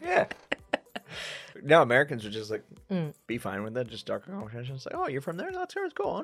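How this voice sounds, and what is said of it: Usual voice. Nothing is said of it.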